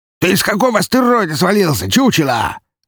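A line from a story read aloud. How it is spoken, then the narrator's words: Indignant squeal. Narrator (Russian): Возмущенно взвизгнул хряк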